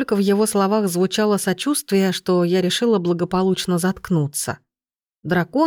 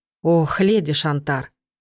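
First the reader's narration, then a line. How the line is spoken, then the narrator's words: Heavy sigh. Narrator (Russian): Он тяжело вздохнул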